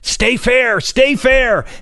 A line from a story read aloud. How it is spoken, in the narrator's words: My dad yelled